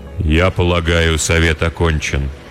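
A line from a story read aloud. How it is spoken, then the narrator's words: Remarkably even, elderly voice. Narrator (Russian): удивительно ровным голосом произнес старший кудесник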